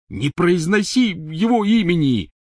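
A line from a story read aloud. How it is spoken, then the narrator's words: Angry shout from tent. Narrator (Russian): сердито крикнул из палатки Рон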